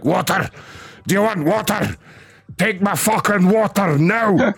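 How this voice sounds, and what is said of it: Aggressive put-on Scottish accent. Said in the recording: “he's talking in this Scottish accent, so he's like super fucking aggressive”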